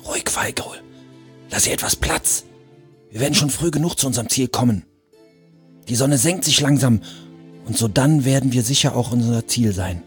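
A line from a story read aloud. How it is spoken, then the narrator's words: Whisper. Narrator (German): Schlachtgol flüsterte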